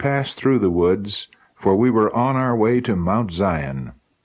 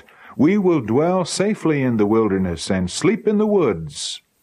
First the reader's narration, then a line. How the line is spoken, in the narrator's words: we all cried out